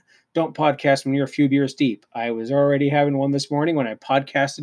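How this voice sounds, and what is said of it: Usual voice. Nothing is said of it.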